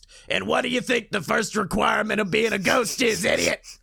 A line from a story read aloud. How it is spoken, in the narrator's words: Beetlejuice screams at him